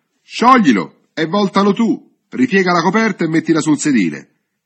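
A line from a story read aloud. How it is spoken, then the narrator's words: Shouting. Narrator (Italian): Domenico, gli gridò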